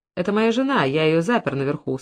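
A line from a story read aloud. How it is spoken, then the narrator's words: Calm explanation. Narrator (Russian): спокойно пояснил Уилсон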